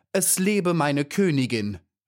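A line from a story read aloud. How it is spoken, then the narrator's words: Calling out. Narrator (German): rief sie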